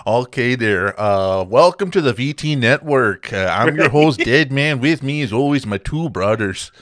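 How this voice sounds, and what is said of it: Attempted North Dakota accent. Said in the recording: “You got to do it in a North Dakota accent now. ... I'm not from North Dakota. I'm from Texas. ... I sound like a bit too north there”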